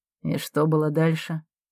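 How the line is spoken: Quiet question. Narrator (Russian): тихо спрашивает Марка

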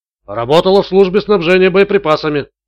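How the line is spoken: Plain. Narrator (Russian): ответил тот

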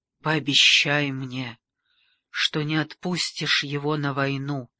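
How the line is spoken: Old woman, breathless. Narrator (Russian): выдохнула старая дама

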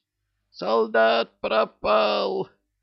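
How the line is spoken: Shrieking. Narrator (Russian): Визжала медсестра

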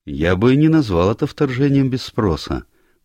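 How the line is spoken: Remarkably calm stranger. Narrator (Russian): голос незнакомца прозвучал удивительно спокойно

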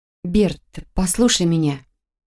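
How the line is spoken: Gentle opening. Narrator (Russian): мягко начала я

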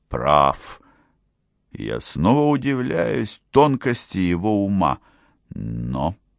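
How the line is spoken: Emperor's hollow voice. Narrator (Russian): продолжал император глухим голосом

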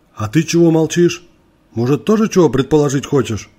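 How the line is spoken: Rough question. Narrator (Russian): Грубо спросил

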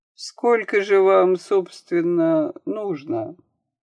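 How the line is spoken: Cold, detached. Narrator (Russian): холодным, совершенно безучастным тоном

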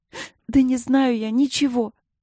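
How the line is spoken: Sobbing. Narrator (Russian): Не удержалась, всхлипнула

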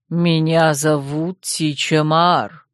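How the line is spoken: Low, strong chest voice. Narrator (Russian): проговорила бабушка неожиданно низким и сильным грудным голосом

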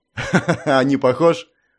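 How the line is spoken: Laughing. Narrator (Russian): рассмеялся принц

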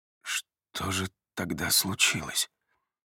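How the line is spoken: Hoarse, clearing throat. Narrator (Russian): Голос звучит хрипло, и он откашливается

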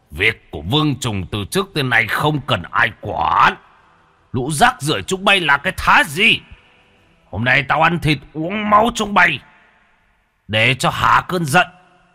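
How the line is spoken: Furious roar. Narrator (Vietnamese): Trùng Dần gầm lên một tiếng

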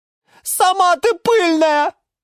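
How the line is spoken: Geranium shrieking back. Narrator (Russian): завизжала в ответ герань Антонина

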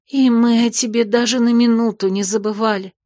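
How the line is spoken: Sobbing woman. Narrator (Russian): всхлипнула прижавшаяся к подруге брюнетка

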